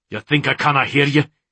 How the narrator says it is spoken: He snapped, more angry at himself than at her

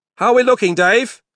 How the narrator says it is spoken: he shouted over to the front of the bus

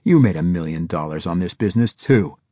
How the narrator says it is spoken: Harris snapped

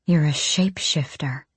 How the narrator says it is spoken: Nezrin breathed

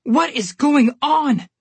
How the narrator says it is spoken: yelled

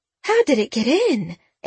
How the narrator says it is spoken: Aunt Edie asked, her voice tremulous

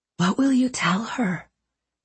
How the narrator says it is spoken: he asked in a whisper

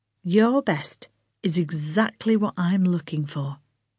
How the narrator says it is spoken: Lana said softly

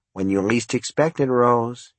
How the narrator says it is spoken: he murmured

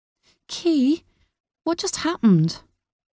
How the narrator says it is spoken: Molly asked, her voice trembling

